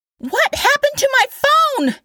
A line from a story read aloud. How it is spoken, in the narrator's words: Kat screeched